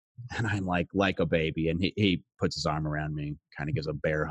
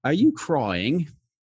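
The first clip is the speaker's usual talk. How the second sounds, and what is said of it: Bad put-on English accent. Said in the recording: “this is my horrible English accent”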